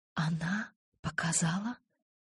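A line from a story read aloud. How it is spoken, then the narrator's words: Whisper. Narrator (Russian): шепнула я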